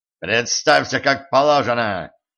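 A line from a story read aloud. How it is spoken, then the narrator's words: Harsh barked command. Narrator (Russian): рявкнул на него стажер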